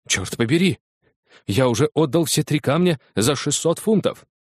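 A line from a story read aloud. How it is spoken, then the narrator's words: Exclaiming. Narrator (Russian): воскликнул он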